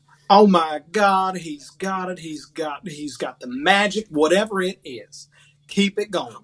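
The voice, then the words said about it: Put-on hillbilly accent. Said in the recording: “It would be in a hillbilly accent ... Please do the hillbilly accent.”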